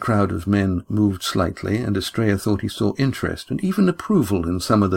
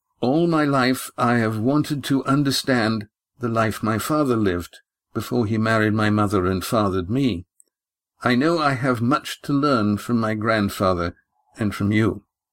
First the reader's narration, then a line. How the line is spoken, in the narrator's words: said Astraea, his voice sounding much firmer than he felt